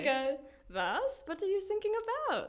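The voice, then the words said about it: Put-on German accent. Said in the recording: “we've showcased your accent capabilities this episode”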